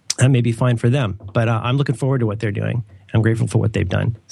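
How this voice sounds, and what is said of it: Voice sounds a little sick. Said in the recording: “I sound a little sick. ... You do. You feel a little sick.”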